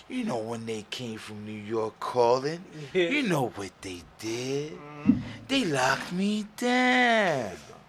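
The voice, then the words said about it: Imitates another person's voice. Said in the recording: “that was a good impression. ... Good impression.”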